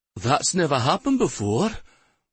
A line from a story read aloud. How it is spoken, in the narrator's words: in a husky voice that trembled like his shaking hands